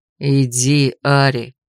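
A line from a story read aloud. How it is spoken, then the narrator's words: Tired repetition. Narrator (Russian): уже устало повторил Грей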